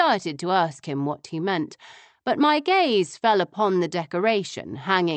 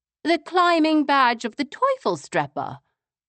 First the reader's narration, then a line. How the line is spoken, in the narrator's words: I exclaimed